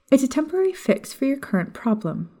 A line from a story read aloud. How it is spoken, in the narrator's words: she offered